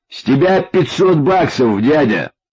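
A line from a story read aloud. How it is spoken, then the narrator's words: Shouted. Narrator (Russian): крикнул Паша бездыханному гиганту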